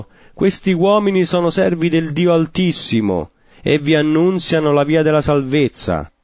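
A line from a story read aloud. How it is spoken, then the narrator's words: Woman shouting. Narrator (Italian): Costei gridava dicendo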